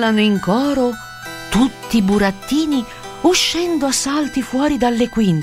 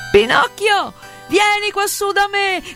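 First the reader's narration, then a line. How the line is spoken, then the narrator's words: Shouting. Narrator (Italian): grida Arlecchino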